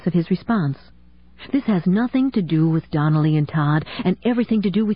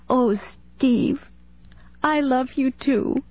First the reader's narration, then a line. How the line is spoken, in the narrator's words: she sobbed, her shoulders shaking with emotion